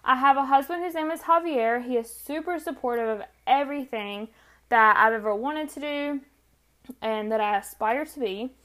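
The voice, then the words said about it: Country North Carolina accent. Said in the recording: “I am from North Carolina, which explains the country accent.”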